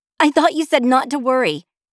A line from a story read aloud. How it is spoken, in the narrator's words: snapped again as she looked anxiously around the airplane